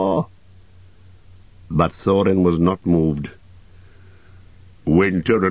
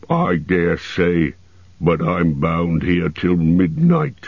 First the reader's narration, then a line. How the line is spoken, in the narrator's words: grumbled the fat dwarf